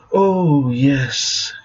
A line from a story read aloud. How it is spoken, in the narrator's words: hissed, animated with lust